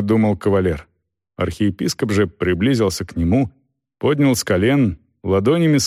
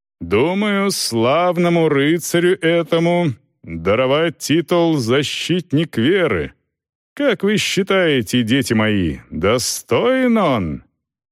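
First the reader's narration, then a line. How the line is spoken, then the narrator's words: Loud, addressing a crowd. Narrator (Russian): заговорил уже громко на всю площадь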